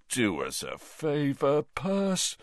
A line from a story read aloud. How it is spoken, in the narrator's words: said Bill, yawning